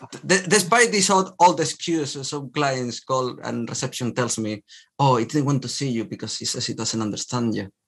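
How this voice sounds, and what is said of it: Strong, hard-to-understand accent. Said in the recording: “my accent is not the easiest”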